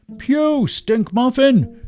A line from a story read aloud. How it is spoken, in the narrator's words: cried a dwarf-like figure holding his nose